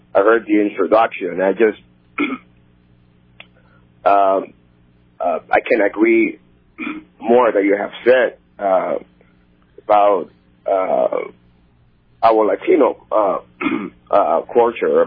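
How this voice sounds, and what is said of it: Hoarse voice. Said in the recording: “my laryngitis”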